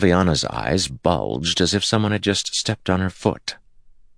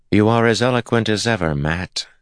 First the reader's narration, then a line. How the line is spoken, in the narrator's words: Egwene said dryly